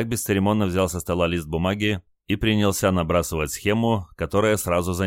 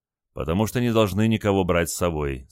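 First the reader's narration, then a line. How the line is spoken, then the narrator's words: Calm. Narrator (Russian): спокойно ответил лейтенант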